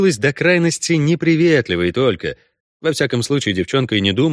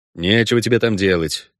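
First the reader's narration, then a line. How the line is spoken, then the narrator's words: Gruff grumble. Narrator (Russian): буркнул Геральт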